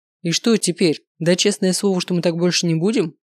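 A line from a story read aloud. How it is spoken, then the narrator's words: Wry scoffing grunt. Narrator (Russian): хмыкнул Маркус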